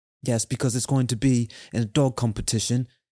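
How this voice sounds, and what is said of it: Put-on British accent. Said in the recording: “I don't know why I just had a British accent right there. That was weird.”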